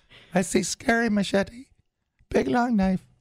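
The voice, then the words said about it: Imitates a young boy's voice. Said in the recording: “I was doing an impression of the young boy.”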